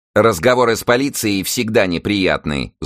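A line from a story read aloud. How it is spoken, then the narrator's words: Angry bark. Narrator (Russian): злобно рявкнула на него вдова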